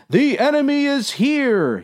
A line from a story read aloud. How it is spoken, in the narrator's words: yelled the other man